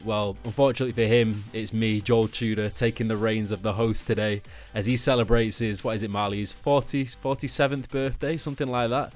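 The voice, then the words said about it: Mancunian accent. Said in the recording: “such a gorgeous Mancunian accent”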